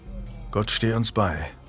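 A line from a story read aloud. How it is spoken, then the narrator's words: Muttering. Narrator (German): murmelte Jasper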